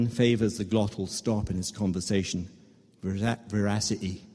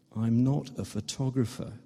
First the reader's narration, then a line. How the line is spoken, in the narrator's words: Ben says, a little wearily